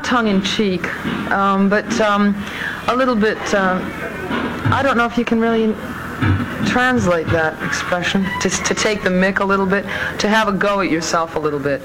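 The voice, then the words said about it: American accent with slight British tinge. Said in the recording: “you can hear a bit of her accent there, too ... an American with a little bit of a Brit ... Mid-Atlantic”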